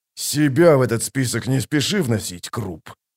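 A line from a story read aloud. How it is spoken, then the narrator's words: Growled. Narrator (Russian): прорычал Кол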